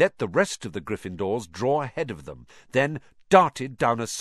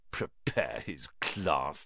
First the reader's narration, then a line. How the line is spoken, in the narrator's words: Ron sneered after him